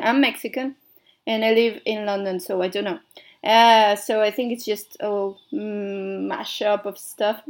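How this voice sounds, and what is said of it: Mixed Mexican-American English accent. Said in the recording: “it's a mystery accent. It should be, like, Mexican accent, but then some people say I don't really sound Mexican ... I sound more like, I don't know, weird or something ... a bit, you know, mixed”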